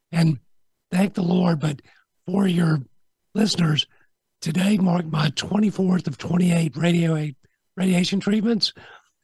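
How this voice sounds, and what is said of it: Rough, strained voice. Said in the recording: “my voice is terrible”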